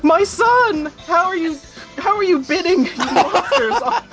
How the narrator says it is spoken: He just yelled it

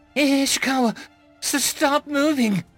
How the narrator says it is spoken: she squealed

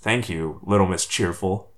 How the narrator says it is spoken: Marco muttered under his breath

